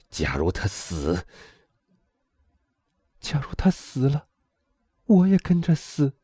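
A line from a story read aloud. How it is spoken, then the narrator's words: Through gritted teeth. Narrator (Chinese): 咬牙切齿的说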